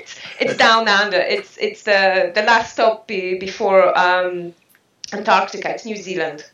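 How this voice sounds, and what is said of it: New Zealand accent. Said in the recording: “I can detect by your accent that you're not from the UK ... I am a Kiwi”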